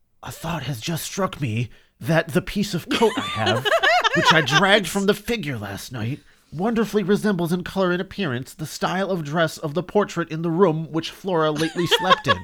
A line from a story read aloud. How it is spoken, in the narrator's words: Marchdale said in a whisper